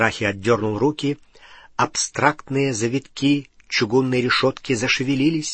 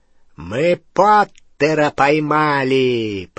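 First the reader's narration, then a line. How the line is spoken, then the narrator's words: Triumphant roar. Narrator (Russian): победно проревел Сивый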